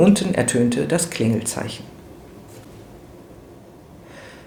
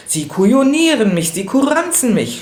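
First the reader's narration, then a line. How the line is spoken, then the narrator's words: Furious shout. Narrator (German): schrie er im Jähzorn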